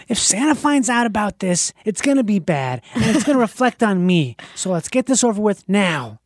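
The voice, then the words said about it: Imitates a movie character's voice. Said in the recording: “that's actually also a really good impression ... Like dead on for me.”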